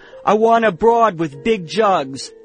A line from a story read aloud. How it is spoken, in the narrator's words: one of the men yelled